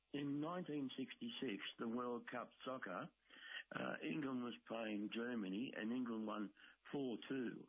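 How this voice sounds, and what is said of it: Hoarse, weak voice. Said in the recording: “I lost my voice”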